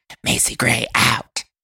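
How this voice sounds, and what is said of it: Strained, throaty imitation of another person. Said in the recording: “it hurts my throat a little bit. Doing Macy hurts my throat. ... Terrible impression, too.”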